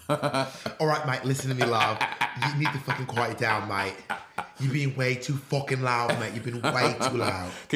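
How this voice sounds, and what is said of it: Put-on British accent. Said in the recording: “My favorite thing about your British accent ... You do this like British accent face every time you do British accents”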